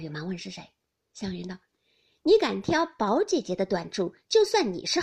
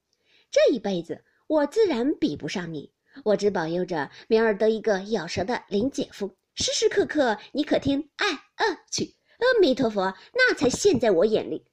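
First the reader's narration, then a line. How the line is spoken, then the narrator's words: Laughing. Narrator (Chinese): 湘云笑道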